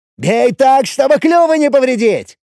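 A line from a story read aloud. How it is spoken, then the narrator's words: Cheerful shout. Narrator (Russian): весело прокричал Чип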